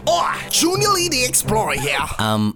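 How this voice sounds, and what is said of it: Poorly done put-on accent. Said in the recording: “That accent is not good at all.”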